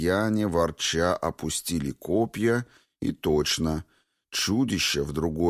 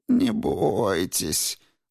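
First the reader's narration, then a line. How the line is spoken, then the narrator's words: Mocking drawl. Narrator (Russian): насмешливо протянул Божок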